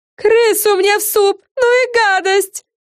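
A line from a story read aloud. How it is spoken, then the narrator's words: Shriek. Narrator (Russian): завопила она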